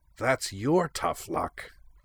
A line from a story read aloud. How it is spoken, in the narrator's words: she growled